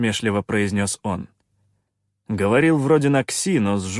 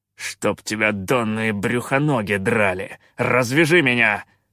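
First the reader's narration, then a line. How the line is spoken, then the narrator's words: Growl. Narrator (Russian): прорычал Калаан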